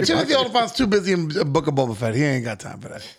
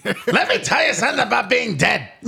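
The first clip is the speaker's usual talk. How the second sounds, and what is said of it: Imitates another person's voice. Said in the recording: “with the voice of Gilbert Gottfried”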